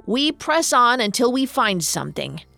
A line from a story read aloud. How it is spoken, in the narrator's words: growled Lykos